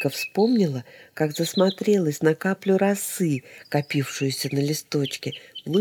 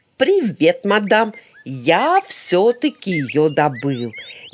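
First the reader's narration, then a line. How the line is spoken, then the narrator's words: Loud, playful shout. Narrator (Russian): громко, задорно крикнул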